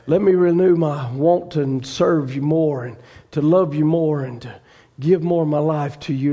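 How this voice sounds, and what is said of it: Weak, strained voice. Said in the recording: “my voice is weak tonight.”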